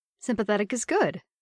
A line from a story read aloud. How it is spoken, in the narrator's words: Bernie said cheerfully